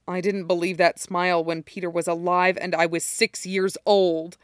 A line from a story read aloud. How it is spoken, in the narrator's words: Derek snarls